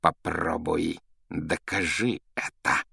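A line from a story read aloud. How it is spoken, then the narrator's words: Hissed. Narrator (Russian): прошипел он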